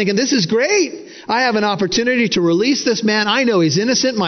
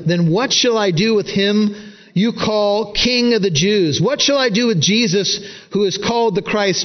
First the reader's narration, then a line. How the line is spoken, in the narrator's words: Matthew says